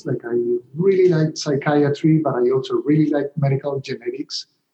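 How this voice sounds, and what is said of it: Colombian Spanish accent. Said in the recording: “I'm originally from Colombia, as you might be able to tell from my accent.”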